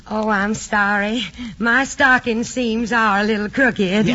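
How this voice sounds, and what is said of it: Put-on Southern accent. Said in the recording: “that Southern accent”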